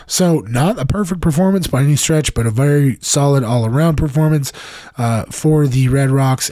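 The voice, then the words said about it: Voice out of shape, impaired. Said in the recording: “I apologize for my voice. ... We're going to keep working to try and get it back to uh, podcast shape.”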